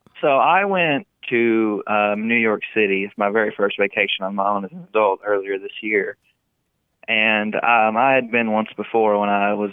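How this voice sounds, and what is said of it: Heavy Southern country accent. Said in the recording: “I'm from the country. I have a country accent ... your accent's really heavy”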